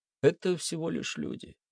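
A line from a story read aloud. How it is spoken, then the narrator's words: Sighing. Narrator (Russian): вздохнул Виктор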